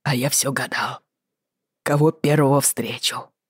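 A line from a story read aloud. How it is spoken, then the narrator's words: Faint hoarse rasp, unused voice. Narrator (Russian): Чуть слышно просипел он, будто после нашего расставания в горах не разговаривал ни с одной живой душой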